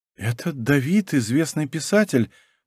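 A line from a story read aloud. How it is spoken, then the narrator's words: Timid babbling. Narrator (Russian): пролепетала Лара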